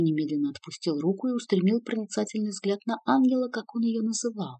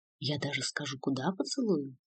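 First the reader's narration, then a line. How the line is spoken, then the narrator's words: Passionate whisper. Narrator (Russian): страстным шепотом продолжал Артью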